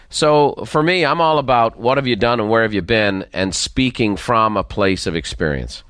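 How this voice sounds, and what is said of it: Faint lilting Dublin accent. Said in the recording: “the faint lilt of a Dublin accent”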